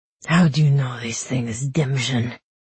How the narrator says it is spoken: He growled at Kaz

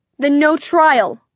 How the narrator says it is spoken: I shouted, running to the supply closet

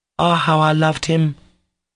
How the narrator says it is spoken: exclaimed Kolya

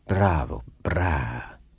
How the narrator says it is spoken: hummed through the silence like the purring of a great cat

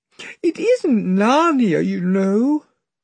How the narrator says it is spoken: sobbed Lucy

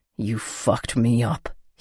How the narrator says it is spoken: he growled

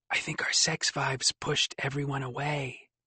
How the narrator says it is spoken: you whisper at me

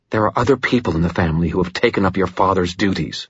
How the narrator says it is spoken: Mother Murphy said, her voice bitter

